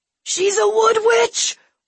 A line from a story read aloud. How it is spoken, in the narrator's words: one of them screamed